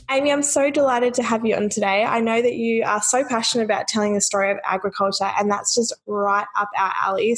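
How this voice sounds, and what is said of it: Sick, slightly different-sounding voice. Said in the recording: “my voice was a little bit funny on this recording. I was a little bit sick, so I do sound a bit different.”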